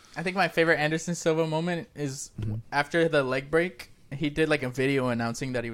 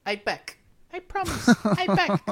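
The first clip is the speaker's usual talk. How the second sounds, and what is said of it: Imitates another person's high-pitched voice. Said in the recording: “he has like a really high voice”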